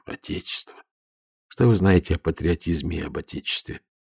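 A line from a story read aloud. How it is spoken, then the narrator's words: Lieutenant exhaling words. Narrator (Russian): Лейтенант выдохнул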